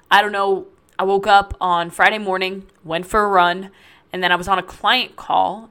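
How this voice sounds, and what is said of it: Raspy, cracking, congested voice. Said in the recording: “my voice cracks or sounds a little bit raspy ... all stuffed up ... my voice apparently wants to slowly disappear on me”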